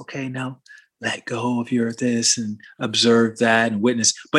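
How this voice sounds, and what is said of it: Soft, gentle yoga-teacher voice. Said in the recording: “do the whole soft voice”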